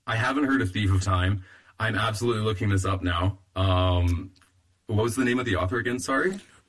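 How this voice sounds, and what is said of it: Slightly hoarse, fading voice. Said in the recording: “I'm losing my voice a little bit”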